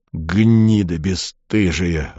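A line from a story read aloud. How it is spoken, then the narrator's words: Growling. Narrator (Russian): рычал он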